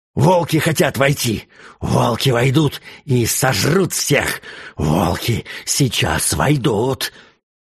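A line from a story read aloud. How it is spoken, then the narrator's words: Hoarse, excited repeating. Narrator (Russian): хриплый голос возбужденно повторял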